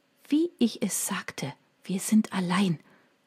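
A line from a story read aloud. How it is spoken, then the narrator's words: Whisper. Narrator (German): flüsterte sie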